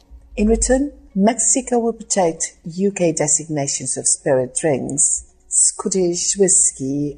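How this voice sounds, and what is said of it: Posh English accent. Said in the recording (Spanish): “ese acento inglés ... su acento tipo serie de Crown”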